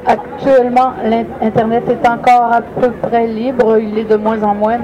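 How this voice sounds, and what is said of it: Slight Québécois French accent. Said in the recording (French): “avec un peu d'accent québécois”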